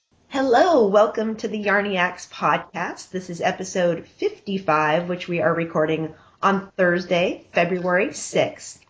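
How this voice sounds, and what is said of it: Stuffy voice with a cold. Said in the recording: “pardon my voice today, I do have a cold”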